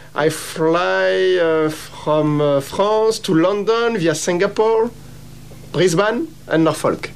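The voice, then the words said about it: French-accented English. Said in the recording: “Are you from New Zealand? I'm trying to pick the accent. I can't quite pick it. ... I'm from France.”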